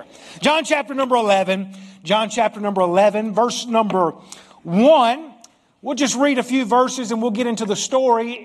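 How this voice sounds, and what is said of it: Southern US accent. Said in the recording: “I'm country, man. I'm from the deep south. I've got an accent ... I talk good Southern English”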